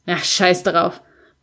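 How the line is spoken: Dismissive grumbling. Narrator (German): brummte ich wegwerfend

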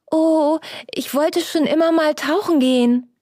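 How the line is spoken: Happy exclamation. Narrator (German): rief Peppel erfreut

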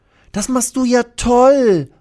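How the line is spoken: Annoyed call. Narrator (German): ruft Lilly, die sich ärgert, dass die beiden Dachhälften immer wieder runterrutschen

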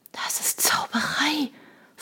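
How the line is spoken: Awestruck whisper. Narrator (German): flüsterte Shona, die wie gelähmt war von dem silbernen Drachen

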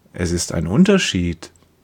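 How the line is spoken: Gentle. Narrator (German): sagt er sanft

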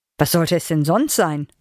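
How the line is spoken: Plain. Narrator (German): fragte Jürgen

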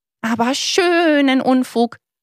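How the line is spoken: Called out. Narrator (German): rief Lilo

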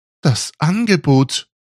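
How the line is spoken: Aghast cry. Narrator (German): rief entgeistert

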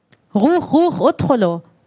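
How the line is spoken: Soldier demanding, accented Arabic. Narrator (German): forderte ein Soldat auf Arabisch mit hebräischem Akzent

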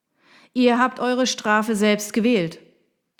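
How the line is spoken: Thundering. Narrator (German): donnerte er

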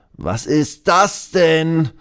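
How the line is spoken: Confused call. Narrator (German): ruft der Trainer verwirrt

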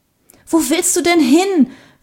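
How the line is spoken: Panting question. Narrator (German): fragte Sarah keuchend

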